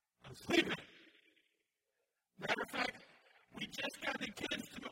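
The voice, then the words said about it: Yelling loudly. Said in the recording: “Why am I yelling?”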